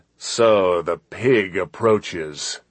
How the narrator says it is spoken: With a sneer of disdain, he said

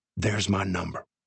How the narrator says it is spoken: Jake whispered

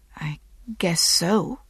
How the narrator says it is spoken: she whispered

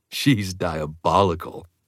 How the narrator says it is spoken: Emmett chuckled

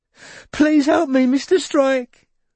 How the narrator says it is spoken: wailed the voice in Robin's ear

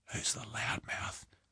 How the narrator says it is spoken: He whispered

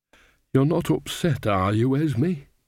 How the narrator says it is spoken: said Nanny anxiously

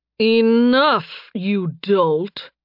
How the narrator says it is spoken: a cold voice drawled

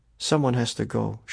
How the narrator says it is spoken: she whispered

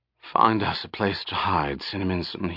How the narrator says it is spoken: breathed softly

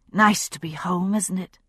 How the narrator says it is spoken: she said softly

